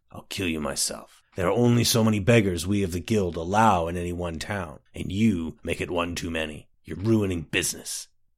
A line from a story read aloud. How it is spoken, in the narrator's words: the man growled